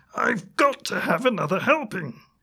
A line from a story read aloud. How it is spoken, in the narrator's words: He yelping